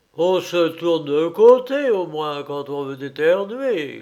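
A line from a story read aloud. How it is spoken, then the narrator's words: Grumbling. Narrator (French): grogna-t-il en se frottant les yeux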